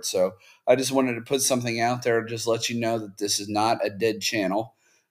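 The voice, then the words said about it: Sick, strained voice. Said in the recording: “You can probably tell my voice is not doing well. I'm kind of ill myself”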